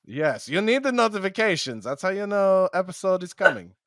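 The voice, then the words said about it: Put-on German accent, NoHo Hank. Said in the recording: “my Nazi uh, accent is switching between uh, German and NoHo Hank from the the show Barry on HBO”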